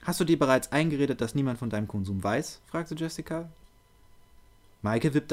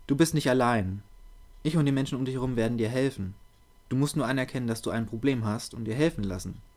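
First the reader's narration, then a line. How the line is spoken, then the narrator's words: Calm, measured. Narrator (German): redete Jessica besonnen und ruhig auf Michael ein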